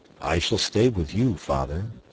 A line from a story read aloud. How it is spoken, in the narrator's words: said I